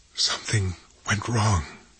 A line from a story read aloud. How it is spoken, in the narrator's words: she whispered